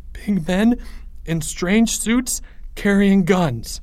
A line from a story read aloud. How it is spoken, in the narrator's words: stammered Leo